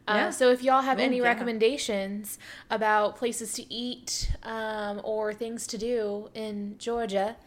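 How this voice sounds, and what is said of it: Put-on southern US accent. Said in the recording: “I need to stop saying that with a southern accent.”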